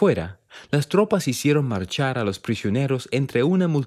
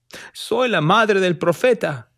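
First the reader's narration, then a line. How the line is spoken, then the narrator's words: Shouted. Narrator (Spanish): gritó Lucy Smith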